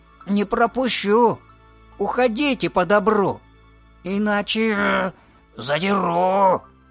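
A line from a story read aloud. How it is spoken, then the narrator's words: Angry growl. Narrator (Russian): он зарычал и сказал сердитым голосом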